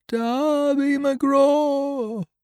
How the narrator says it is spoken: it wailed, for that is the word that best describes the sound

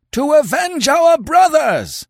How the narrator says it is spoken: they howled

